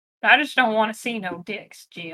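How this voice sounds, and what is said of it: Bones impression, southern accent. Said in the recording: “This is a solid Bones impression, right? ... It's a man with a southern accent.”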